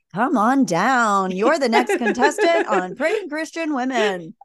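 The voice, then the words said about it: Game show announcer voice. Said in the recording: “game show voice”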